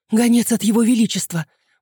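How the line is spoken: Breathless exclamation. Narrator (Russian): выдохнула женщина лет 30

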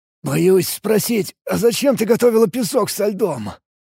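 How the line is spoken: Hoarse, still coughing. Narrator (Russian): прохрипел я, все еще никак не мог прокашляться

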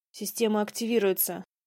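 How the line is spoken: Growled. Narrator (Russian): прорычал Адам

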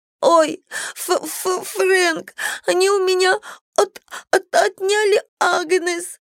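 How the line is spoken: Sobbing. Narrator (Russian): Она всхлипнула

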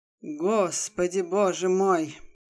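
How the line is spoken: Sighing exclamation. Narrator (Russian): Вздохнула начальница

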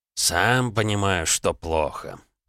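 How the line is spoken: Sighing. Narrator (Russian): вздохнул химик

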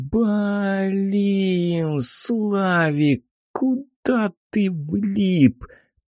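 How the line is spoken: Muttered with a sigh. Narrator (Russian): пробормотал я, вздохнув

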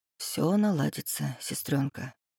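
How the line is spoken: Close whisper. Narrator (Russian): прошептал в висок

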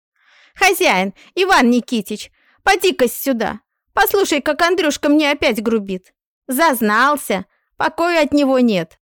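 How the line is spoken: Stout woman shouting. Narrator (Russian): кричала в сенях толстая хозяйка

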